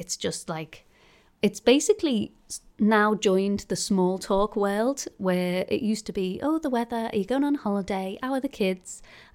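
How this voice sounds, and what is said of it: Muffled, congested voice from cold. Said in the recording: “you can hear my muffled style voice. ... I've got a cold,”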